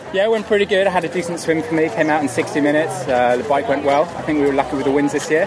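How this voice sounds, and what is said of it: English accent. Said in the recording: “You sound like a pom. ... that's the reason for my accent”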